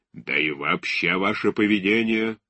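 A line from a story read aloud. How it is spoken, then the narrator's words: Harsh tone. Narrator (Russian): продолжал жестким тоном Шульгович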